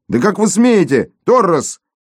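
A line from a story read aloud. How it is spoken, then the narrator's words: Yelling. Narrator (Russian): Завопил он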